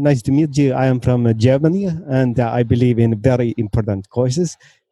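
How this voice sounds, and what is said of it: Put-on German accent. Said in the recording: “Let's, hear some accents. Can you uh, ask us a question in your German accent?”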